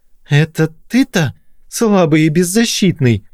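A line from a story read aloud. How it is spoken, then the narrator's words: Shrill squeal. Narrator (Russian): взвизгнул Белозеров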